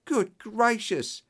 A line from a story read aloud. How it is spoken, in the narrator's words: He cried